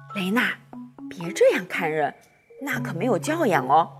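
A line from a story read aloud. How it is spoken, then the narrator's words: Whispered in ear. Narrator (Chinese): 妈妈小声在我耳边说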